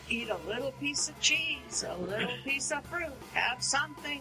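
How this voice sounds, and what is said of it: Imitates a Jewish mother's voice. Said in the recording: “my Jewish mother impression”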